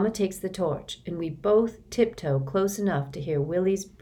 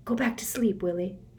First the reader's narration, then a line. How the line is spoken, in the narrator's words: whisper